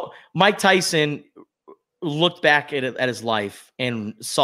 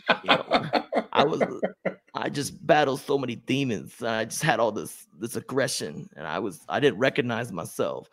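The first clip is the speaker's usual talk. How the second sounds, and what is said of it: Imitates another person's voice. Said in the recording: “That was a good impression”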